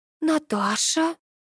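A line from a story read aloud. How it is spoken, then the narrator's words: Breathless exhale. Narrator (Russian): выдохнула Ирина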